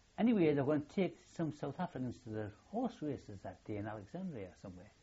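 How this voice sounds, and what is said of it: Geordie accent. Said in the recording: “you're a Geordie and I'm from Gateshead. She says, I recognise the accent.”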